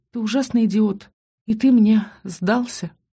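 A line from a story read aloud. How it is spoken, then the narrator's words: Sobbing. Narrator (Russian): всхлипнула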